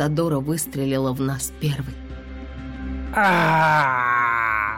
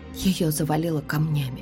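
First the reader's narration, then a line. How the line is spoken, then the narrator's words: Whispering. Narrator (Russian): прошептала я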